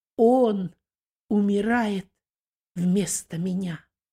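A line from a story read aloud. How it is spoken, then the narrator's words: Calm despite suffering. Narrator (Russian): второй преступник, спокойно переносящий страдания, обратился к первому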